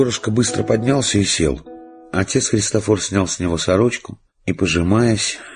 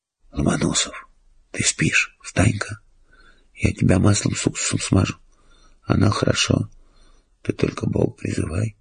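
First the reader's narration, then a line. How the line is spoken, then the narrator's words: Whisper. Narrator (Russian): Робинзон зашептал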